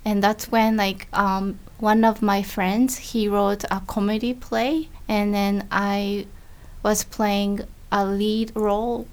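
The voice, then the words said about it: Thick Japanese accent. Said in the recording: “I have thick Japanese accent”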